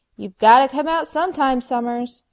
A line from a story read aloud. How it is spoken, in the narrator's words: Spike shouted at the window